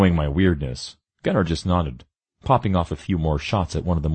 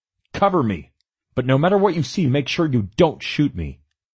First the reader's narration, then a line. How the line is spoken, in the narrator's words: I yelled to Gunner